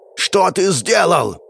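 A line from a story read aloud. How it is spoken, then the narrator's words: Shouting. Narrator (Russian): прокричал он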